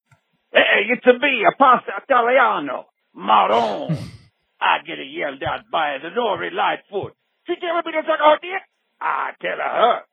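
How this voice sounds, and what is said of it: Put-on Italian accent drifting Cajun. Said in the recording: “What kind of accent? ... they went Cajun a bit ... Italian to Cajun pipeline”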